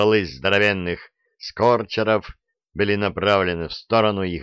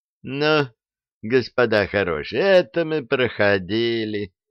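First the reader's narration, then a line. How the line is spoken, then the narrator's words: Bored voice. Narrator (Russian): сказали скучным голосом советские люди в камуфляже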